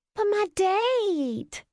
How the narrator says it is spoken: she whined

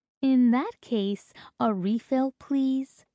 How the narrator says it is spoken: she asks sweetly

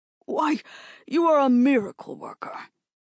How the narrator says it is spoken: he exclaimed

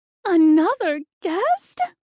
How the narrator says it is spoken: She cried

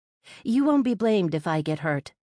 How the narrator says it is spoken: I sighed

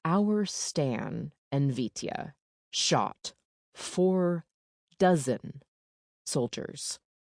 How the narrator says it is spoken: Mirek said in his slowest, most skeptical voice

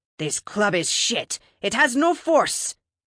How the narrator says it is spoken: She growled

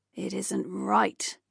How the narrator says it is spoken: the gargoyle snarled

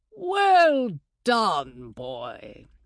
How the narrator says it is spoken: Herr Heyerdahl's voice boomed

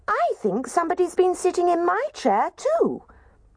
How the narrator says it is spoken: Baby Bear squeaked

